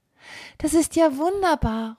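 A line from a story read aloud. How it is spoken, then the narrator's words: Calling out. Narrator (German): ruft Annemarie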